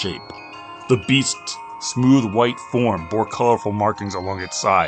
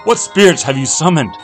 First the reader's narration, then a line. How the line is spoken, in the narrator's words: Awone, still bleeding, ... called out